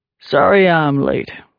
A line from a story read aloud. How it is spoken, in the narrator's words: Knox said in a rumbling, low voice